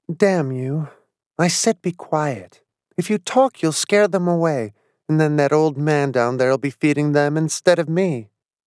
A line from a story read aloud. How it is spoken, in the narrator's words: she said calmly